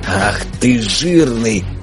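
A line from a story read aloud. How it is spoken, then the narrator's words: Rasping wheeze. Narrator (Russian): прохрипел Никита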